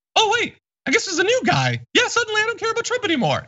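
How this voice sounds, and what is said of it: Muppet-like Mark Zuckerberg impression. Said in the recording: “a great impression of Zuckerberg. It's very Muppet. Oh, hey, there's a little bit of like Mickey.”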